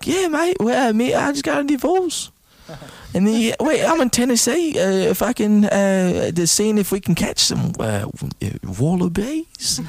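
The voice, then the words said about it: Put-on female Australian accent. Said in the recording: “your Australian accent is getting really good ... That's a female Australian.”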